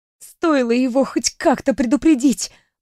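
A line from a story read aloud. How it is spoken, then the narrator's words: Hissed under breath. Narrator (Russian): Прошипела я себе под нос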